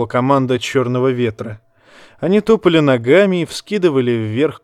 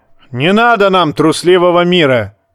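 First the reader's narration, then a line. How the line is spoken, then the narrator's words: Roar. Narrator (Russian): взревел Ральф Хромой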